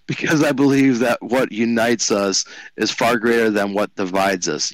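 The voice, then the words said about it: Imitates another person's voice. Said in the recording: “I had to do my best impersonation of him there ... that voice you did try to imitate him”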